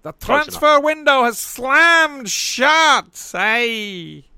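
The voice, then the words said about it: Imitates another person's voice. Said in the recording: “That's actually a very good impression”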